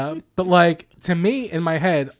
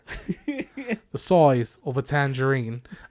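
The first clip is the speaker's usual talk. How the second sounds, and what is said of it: Put-on British accent, not very good. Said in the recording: “I've been doing Ren Faire for 2 weekends now, and my accent has not gotten any better.”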